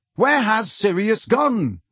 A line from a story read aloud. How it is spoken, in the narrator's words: Harry yelled